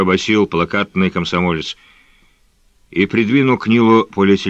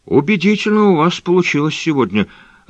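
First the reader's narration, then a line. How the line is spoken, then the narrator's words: Timid remark. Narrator (Russian): робко заметил Нил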